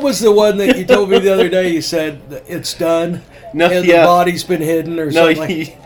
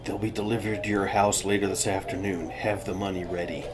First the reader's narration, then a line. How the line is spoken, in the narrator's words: whisper in their ear